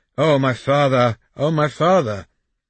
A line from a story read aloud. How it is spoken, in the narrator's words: The boy collapsed at his feet, moaning